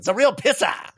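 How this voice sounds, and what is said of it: Ben Affleck Boston accent impression. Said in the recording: “Ben Affleck out there in his Boston accent.”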